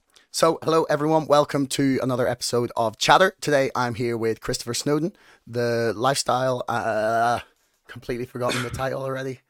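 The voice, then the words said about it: Hoarse, nearly lost voice. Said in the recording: “as people can hear, I have somewhat lost my voice ... cigarettes, alcohol, and screaming along to some of my favorite songs has robbed me of my voice ... before it dies completely”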